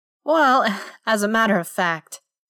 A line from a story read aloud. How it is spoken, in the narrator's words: he said with a little chuckle